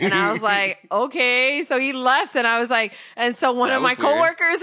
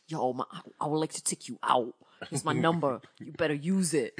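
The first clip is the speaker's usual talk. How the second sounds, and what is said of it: Imitated New York Bronx accent. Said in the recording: “he was from New York ... Yo, I'm from the Bronx ... I didn't hear this accent in our previous conversation”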